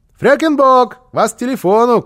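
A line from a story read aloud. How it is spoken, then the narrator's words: Shout. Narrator (Russian): крикнул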